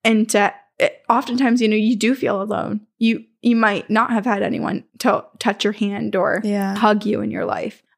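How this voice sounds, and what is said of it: Gravelly, tearful voice. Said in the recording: “now I'm going to start crying. My voice is getting gravelly.”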